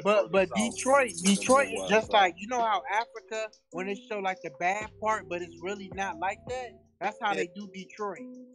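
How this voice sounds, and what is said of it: Southern US accent. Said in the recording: “he sounds mad Midwest ... my other family is from down south, so I kind of got their accent ... Yeah, you definitely got that”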